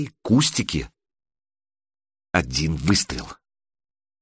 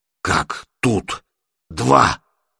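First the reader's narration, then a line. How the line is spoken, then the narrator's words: Exhaled, breathless man. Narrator (Russian): выдохнул бородач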